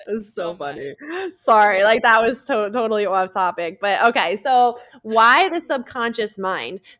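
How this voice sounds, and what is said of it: New Jersey accent. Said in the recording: “can you hear her Jersey accent? ... It's like so Jersey ... that's how we talk ... the way that you say talk”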